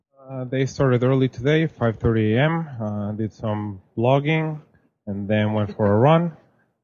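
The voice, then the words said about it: Speaks with a noticeable accent. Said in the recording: “I have a funny accent”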